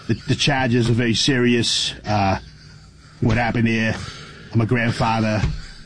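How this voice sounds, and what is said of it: Imitated strong Boston accent. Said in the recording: “a guy with a really strong accent ... It's a great accent. ... It's Boston. It's Massachusetts.”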